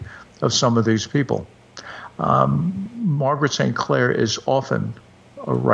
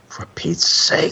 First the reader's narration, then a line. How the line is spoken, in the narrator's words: he hissed into her ear